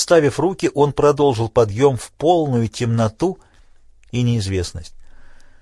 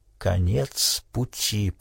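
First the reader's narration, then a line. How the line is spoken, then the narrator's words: Whisper. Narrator (Russian): прошептал он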